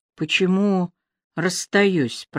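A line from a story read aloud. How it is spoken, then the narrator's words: Mumbled. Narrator (Russian): пробормотала она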